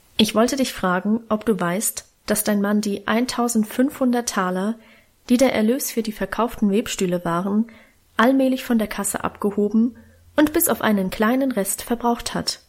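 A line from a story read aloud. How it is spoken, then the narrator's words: Plain. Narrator (German): sagte Großvater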